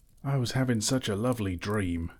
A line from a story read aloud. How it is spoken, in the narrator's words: grumbled